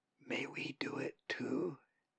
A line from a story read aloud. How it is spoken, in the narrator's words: One of them whispered to the great raven